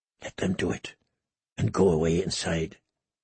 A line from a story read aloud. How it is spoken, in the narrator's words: he heard himself whisper